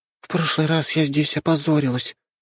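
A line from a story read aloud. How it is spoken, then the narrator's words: Sighing. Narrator (Russian): вздохнула Альма, ставшая арахной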